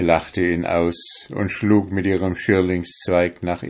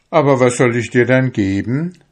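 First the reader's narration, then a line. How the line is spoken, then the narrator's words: Exclaimed. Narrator (German): rief aus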